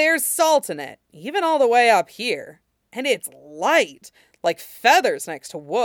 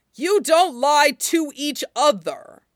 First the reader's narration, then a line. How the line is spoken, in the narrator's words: Temul snarled